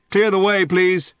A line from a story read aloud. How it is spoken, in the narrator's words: boomed a police megaphone from the back of the crowd